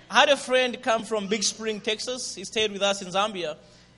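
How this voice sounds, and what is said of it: Zambian English accent. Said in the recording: “Is my accent, Zambian accent, okay? ... Zambian English ... I'll try to speak a little bit slower”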